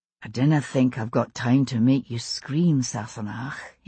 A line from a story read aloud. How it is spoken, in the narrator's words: he whispered in my ear